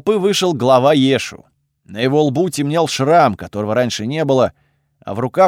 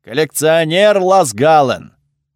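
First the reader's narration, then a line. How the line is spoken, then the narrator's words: Loud. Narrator (Russian): громко заговорил он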